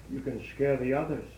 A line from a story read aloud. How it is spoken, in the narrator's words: my mother said coolly